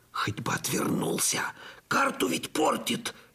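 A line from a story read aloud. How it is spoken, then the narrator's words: Fearful groan. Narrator (Russian): ежась от страха простонал я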